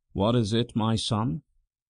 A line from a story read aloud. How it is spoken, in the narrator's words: asked the bishop in his cold, weary voice